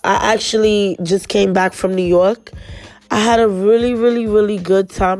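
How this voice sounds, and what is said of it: Stuffy, congested voice. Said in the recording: “It's hard for me to breathe. I had got strep throat ... If I sound a little stuffy”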